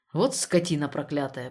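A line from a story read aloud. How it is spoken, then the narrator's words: Half-aloud grumble. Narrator (Russian): почти вслух пробурчал Штребль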